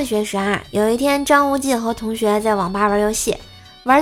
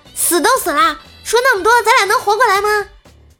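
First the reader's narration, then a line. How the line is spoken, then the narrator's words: Sudden startled shout. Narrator (Chinese): 摆摊的大叔愣了一下，突然大叫的一声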